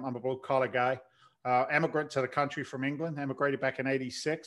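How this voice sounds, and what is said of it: English accent with slight Boston twang. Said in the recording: “it's not a Boston accent... there's a little bit of Boston attached to it... you can't help but picking up a little bit of the twang”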